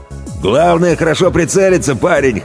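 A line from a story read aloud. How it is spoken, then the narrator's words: Snorting. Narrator (Russian): хмыкнул Дугач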